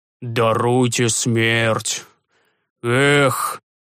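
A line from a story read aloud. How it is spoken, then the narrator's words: Old man sighing. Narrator (Russian): вздохнул старик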